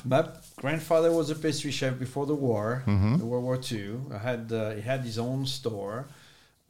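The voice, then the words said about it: French accent. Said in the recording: “I detect a accent ... I kept my accent ... Born and raised in France.”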